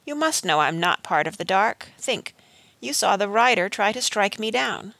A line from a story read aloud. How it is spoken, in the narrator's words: he said gently